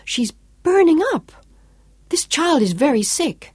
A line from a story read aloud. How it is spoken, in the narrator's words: Claudia exclaimed